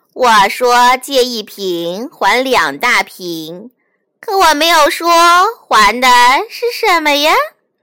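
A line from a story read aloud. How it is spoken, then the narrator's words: Laughing. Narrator (Chinese): 老山羊笑着说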